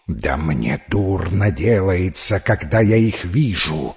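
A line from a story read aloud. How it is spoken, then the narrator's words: Hissed. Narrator (Russian): прошипела Ланцеолада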